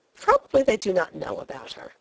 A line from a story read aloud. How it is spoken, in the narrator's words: I said more cheerfully